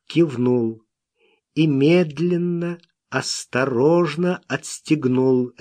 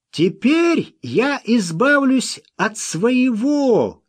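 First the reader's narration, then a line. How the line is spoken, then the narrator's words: Shouted. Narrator (Russian): крикнул он Смоку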